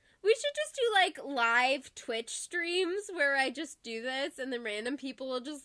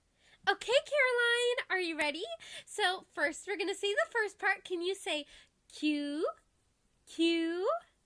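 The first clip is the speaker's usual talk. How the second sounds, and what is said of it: Teacher voice. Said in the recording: “my teacher voice”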